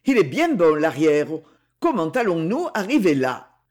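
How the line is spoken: Exclaimed. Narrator (French): s'exclama Maxence

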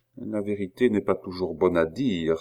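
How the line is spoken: Hasty murmur. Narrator (French): se hâta de murmurer Louis XVI

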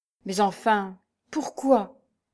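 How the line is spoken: Stammering. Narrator (French): balbutia-t-il

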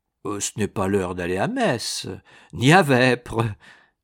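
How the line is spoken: Laughing. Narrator (French): fit Agastins en riant

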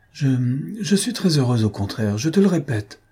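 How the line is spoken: Stammering with effort. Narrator (French): balbutia-t-elle avec effort

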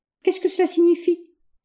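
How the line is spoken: Upset exclamation. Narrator (French): s'écria Oscar bouleversé

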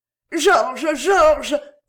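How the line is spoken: Stunned exclamation. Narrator (French): s'écria la reine, immobile et comme clouée à sa place

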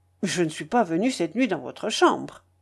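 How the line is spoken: Curt tone. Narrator (French): d'un ton bref

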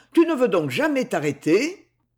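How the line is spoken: Cried out. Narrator (French): s'écria-t-il

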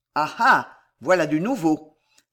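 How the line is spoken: Cold, old man. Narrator (French): dit froidement le vieux routier

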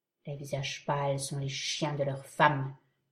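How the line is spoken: Murmured in native language. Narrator (French): murmura l'Indien en sa langue naturelle

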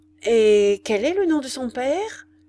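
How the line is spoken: Troubled voice. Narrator (French): demanda-t-elle d'une voix troublée

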